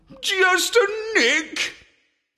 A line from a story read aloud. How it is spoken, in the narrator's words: I howled